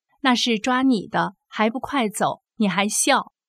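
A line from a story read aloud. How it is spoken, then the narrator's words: Quiet warning. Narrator (Chinese): 街坊小声说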